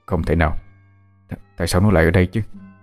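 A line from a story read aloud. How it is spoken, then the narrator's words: Disbelieving mutter. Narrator (Vietnamese): Chú lẩm bẩm trong miệng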